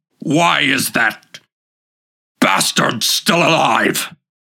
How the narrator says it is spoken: he growled and whirled on Deval, raging as if the wolf were the boy's fault, and shouted

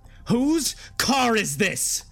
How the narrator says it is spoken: she finally screamed out

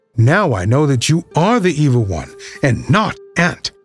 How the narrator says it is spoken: shouted Nicholas gleefully

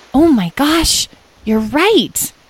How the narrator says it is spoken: exclaimed Edwin

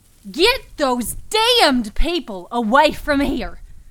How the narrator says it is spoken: Rose Cartwright Keller screeched

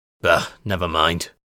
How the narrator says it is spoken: Voslo grunted

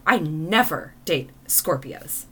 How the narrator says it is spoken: she firmly said

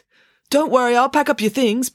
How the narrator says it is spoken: Binky called out to her

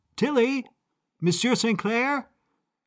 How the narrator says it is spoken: I called out

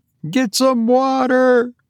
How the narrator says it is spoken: cried Tabitha

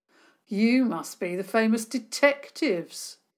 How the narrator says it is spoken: sneered

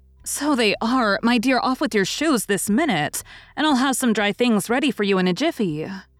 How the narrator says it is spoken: cried Mrs

